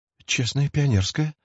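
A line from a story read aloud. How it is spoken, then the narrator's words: Excited whisper. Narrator (Russian): взволнованно шептал Васечкин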